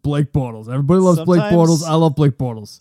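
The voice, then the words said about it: Imitates another person's voice. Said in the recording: “my Tony Cincata impression”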